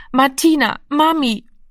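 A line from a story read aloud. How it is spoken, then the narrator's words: Hoarse, exhausted, helpless sobbing. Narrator (German): Heiser und kraftlos vor Erschöpfung sang er, schluchzend und hilflos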